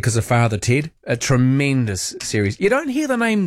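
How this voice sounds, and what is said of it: Usual voice. Nothing is said of it.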